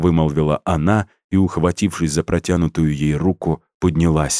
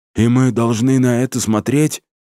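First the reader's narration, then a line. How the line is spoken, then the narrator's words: Hoarse exclamation. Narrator (Russian): сипло воскликнул Макс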